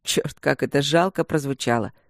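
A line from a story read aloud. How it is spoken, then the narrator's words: Joyless chuckle. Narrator (Russian): Хохотнул он невесело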